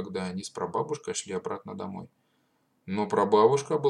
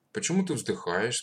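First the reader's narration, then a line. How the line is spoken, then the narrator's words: Plain. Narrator (Russian): спросил он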